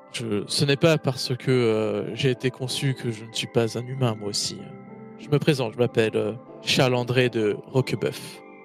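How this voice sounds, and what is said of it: Character voice with an accent. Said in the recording (French): “Cet accent, là.”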